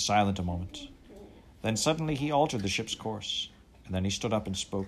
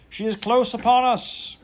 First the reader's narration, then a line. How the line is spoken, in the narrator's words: the lookout man at the stern cried out in a terrible voice